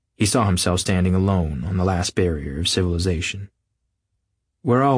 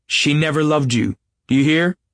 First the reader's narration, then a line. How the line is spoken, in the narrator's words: He cried